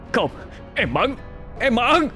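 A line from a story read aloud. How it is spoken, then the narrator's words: Anguished wail. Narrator (Vietnamese): Gã Thanh ngã quỵ, tay ôm ngực, gào lên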